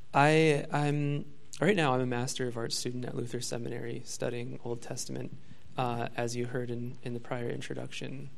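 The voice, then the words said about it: Strained, fading hoarse voice. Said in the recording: “I've been talking a lot, very loudly, and so my voice is already leaving me”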